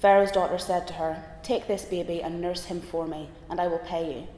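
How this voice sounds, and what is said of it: Reads with a noticeable accent. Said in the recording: “doing so with such a wonderful accent”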